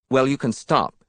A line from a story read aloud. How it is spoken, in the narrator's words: she said, more sharply than she had intended